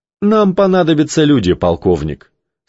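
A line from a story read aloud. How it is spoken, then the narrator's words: Calm reply. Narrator (Russian): спокойно ответил Кей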